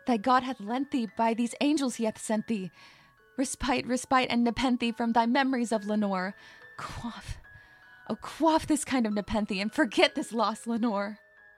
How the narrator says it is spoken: I cried

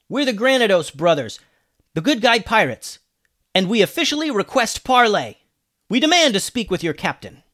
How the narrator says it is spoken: Alex yelled back

